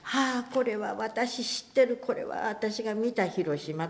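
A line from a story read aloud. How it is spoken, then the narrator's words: Inner thought. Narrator (Japanese): と思った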